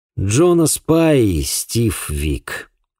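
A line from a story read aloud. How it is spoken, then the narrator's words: Sighing. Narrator (Russian): вздохнул я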